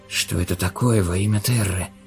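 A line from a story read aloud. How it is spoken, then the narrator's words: Whisper. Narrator (Russian): прошептал Андерс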